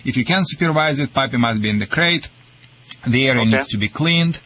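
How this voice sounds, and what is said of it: Slight foreign accent. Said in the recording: “My accent is worse than yours... Yours is just very slight.”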